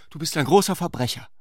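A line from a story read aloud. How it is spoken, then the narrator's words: Calling out. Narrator (German): rief sie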